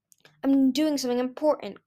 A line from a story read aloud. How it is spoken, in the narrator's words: snapped